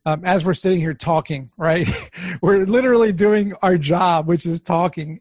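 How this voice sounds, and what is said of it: Strained, worn-out voice. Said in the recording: “my voice is giving out on me because I've been talking a lot ... I can't seem to get my voice back every day”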